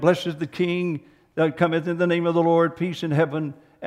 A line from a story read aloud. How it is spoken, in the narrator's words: and he said